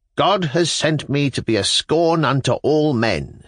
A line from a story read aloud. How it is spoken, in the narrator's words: said he